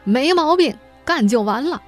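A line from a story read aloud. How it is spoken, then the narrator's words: Loud. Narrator (Chinese): 他会 大声回应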